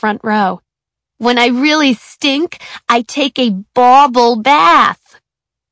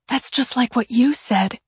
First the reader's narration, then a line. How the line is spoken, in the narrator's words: Kevin whispered to Suzanne